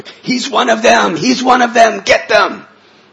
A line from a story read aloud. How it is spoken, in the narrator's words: they would scream out to the public